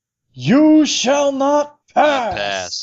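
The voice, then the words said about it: Gandalf impression. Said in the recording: “mimicking Gandalf”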